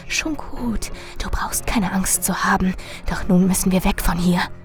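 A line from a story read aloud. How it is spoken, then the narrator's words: Hissing. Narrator (German): Marilyn zischte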